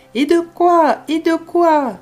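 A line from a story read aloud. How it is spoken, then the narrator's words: Alarmed parrot's cry. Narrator (French): s'écria le perroquet, alarmé de cette marche en avant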